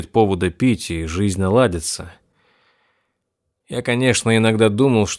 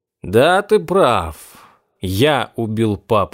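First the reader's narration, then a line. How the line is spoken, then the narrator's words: Plain. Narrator (Russian): говорит он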